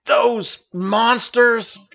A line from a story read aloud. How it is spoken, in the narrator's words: exclaimed Stavius